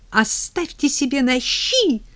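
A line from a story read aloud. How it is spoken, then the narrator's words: Shrill squeal. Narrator (Russian): взвизгнула победительница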